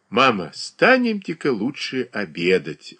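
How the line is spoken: Gentle, affectionate. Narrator (Russian): ласково сказал он

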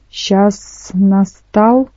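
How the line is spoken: Hissing dragon woman. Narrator (Russian): прошипела одна из драконец

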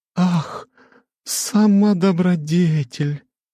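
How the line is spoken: Purring with feigned tenderness. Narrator (Russian): с притворным умилением промурлыкала Альтера

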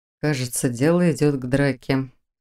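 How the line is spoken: Quiet mutter. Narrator (Russian): тихо пробормотал Фарлак Тари

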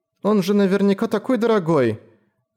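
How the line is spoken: Timid girl exclaiming. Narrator (Russian): робко воскликнула девушка

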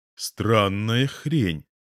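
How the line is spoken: Plain. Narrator (Russian): говорит он

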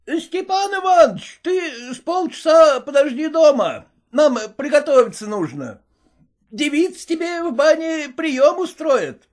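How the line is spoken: Shouting. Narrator (Russian): кричал он

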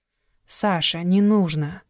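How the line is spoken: Soft voice. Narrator (Russian): мягко сказала Алиса

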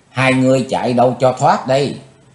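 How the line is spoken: Distant female scream. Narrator (Vietnamese): Tiếng thét nổi lên, quỷ nữ Mộc Liên Anh cách xa chừng 10 trượng

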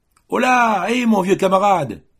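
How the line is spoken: Shouted. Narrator (French): criait-il

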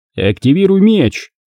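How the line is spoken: Shouted. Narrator (Russian): крикнул Куай-Гон Оби-Вану

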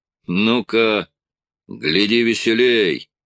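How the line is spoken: Growl. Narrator (Russian): прорычал он команде

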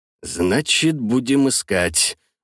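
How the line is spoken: Said grimly. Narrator (Russian): мрачно произнес Вортекс

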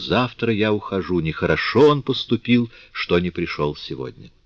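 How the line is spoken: Quiet, very meek. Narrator (Russian): сказала тихо и очень кротко

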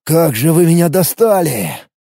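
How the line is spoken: Sighed. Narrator (Russian): вздохнул граф

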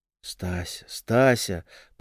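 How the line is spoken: Whisper. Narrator (Russian): прошептал Вадик

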